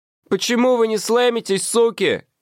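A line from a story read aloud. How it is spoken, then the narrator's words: Shouting, crying. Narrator (Russian): закричал в микрофон солист слез и заплакал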